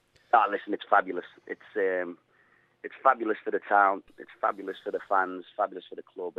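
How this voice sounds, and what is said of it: Scouse Liverpool accent. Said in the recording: “I always think I'm Scouse, and people up here think I'm really broad Scouse and can't understand me... they always take a mick out of me about my accent”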